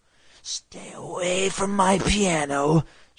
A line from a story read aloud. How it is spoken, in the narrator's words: she rasped